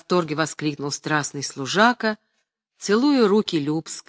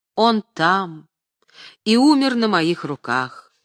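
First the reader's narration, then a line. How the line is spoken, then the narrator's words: Solemn, mournful. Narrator (Russian): Любская торжественно сказала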